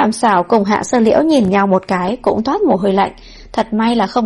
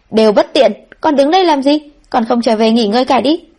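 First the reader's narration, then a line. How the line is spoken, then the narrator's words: Annoyed shout. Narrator (Vietnamese): Chân Ngọc lần này thật rất mất hứng quát lên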